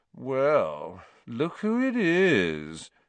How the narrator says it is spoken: said Malfoy in his usual lazy drawl

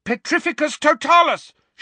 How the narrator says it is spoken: shouted Harry

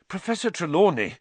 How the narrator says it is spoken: Harry panted

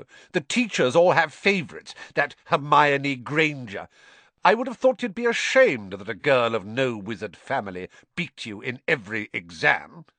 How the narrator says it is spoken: snapped Mr

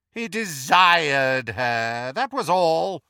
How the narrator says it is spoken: sneered Voldemort

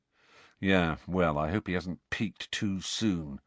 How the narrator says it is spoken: said Fred gloomily

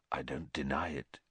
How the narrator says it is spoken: said very quietly

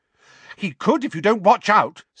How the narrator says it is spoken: said Hermione angrily

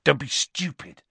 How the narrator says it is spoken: said Ron sharply

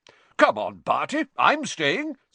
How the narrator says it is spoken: said Bagman, brightly

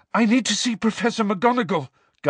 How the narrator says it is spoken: gasped Harry, the breath tearing his lungs

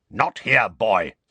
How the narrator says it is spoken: snarled Moody

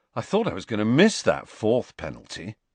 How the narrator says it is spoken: Ron was saying happily

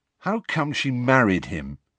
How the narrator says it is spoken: Harry asked miserably

